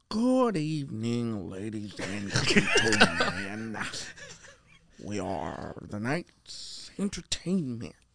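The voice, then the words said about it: Bane impression from Batman. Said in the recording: “my impression of Bane. Bane. ... From Batman.”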